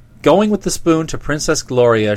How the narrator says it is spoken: she cried

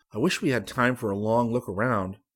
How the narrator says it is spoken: Rick said

